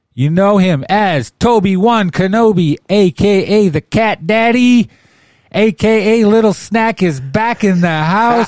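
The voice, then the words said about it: Imitates another person's voice. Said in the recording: “my best Josiah impression”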